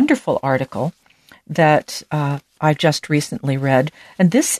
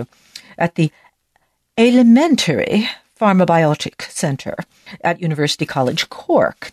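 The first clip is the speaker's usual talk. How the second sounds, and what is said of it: Put-on British accent. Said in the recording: “I'm going to have to say this in British because I just have to ... I can't do an Irish accent. Sorry about that, but doing my best here.”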